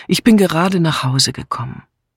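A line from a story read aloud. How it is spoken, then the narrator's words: Tired. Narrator (German): antwortete Julia müde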